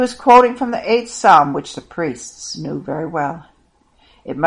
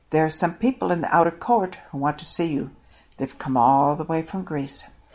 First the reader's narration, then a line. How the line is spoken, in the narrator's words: Philip and Andrew came up to Jesus and whispered to him